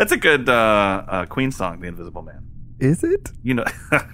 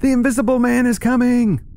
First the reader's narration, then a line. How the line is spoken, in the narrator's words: They yell